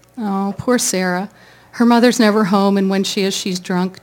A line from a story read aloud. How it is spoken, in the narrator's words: Jenny sighed